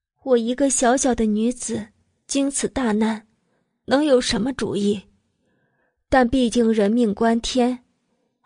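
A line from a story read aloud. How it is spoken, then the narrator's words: Sighing woman. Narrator (Chinese): 慕容九九掩面叹息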